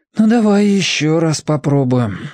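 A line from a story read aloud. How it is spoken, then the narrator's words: Sigh. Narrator (Russian): вздохнул Федя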